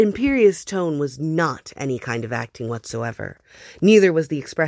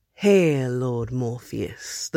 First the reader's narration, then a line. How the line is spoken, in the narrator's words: the Goblin King intoned